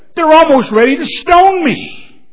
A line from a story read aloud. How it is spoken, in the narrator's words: Moses cries out to the Lord